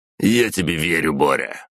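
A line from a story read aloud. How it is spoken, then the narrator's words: Irritated curt remark. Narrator (Russian): раздраженно бросил губернатор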